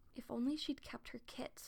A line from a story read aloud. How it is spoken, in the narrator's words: whispered